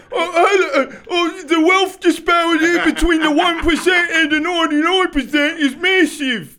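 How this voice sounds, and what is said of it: British accent, imitates another person's voice. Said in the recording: “like his British accent... I'm Russell Brand... our accents are very accurate... We are very good at accents. This is a heavy accented pod.”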